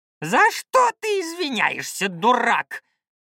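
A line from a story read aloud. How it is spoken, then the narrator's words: Roaring shaman. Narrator (Russian): взревел шаман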